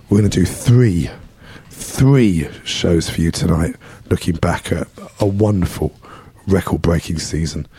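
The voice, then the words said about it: Hoarse, strained, mostly lost voice. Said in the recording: “Sorry for the voice. ... Lost my voice today. ... Apologies for the mess I'm in.”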